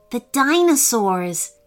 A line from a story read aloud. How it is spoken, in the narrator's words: said Hanifa, clutching his fists tightly